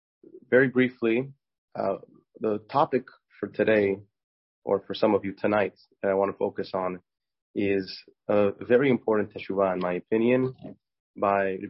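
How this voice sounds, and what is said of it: Weak voice from a cold. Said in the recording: “I have a little bit of a cold, so my voice is not as strong as it normally is”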